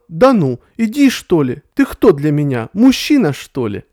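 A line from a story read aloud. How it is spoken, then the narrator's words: Shouted at him. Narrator (Russian): она на него закричала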